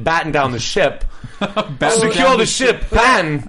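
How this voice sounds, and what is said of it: Poor Christopher Walken impression. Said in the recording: “my poor Walken impression”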